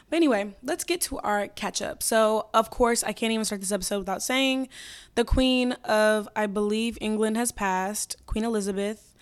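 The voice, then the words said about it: Hoarse, lost voice cutting in and out. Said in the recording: “If you hear my voice go in and out throughout the entire episode, just know that I lost my voice screaming at people ... my voice is gone”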